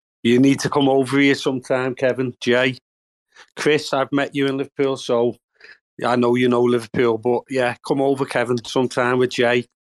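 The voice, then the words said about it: Strong regional accent. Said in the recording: “that accent is magic, man. Just fucking magic.”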